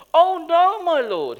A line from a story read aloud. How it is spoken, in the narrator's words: he cried out